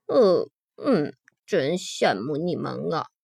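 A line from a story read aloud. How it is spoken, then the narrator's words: Muttering. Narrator (Chinese): 比尔嘟囔着说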